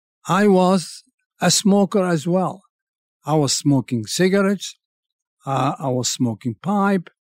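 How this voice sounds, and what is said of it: French accent in English. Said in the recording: “I had to learn my English. I'm still learning it through the French language. So I hope that my accent doesn't detract you from listening to me.”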